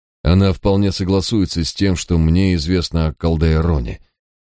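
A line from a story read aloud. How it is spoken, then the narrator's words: Grim, smiling. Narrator (Russian): мрачно улыбнулся я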